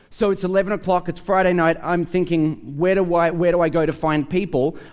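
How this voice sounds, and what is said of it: Australian accent. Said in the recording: “a guy sitting next to me hears my accent. He says to me, "Are you from Australia?" And I said, "Yeah."”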